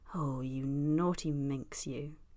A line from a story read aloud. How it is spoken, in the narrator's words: Eddie murmurs